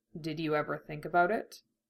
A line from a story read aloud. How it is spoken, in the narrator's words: he asked quietly